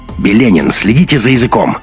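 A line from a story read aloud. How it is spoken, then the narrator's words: Sharp shout. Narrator (Russian): резко выкрикнул Андрей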